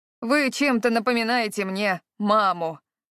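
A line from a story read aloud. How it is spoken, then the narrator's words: Good-natured grumble. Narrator (Russian): проворчал он беззлобно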